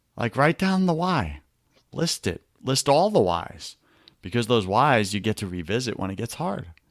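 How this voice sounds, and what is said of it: New York accent. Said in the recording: “my New York accent? I get it. It's a little sexy.”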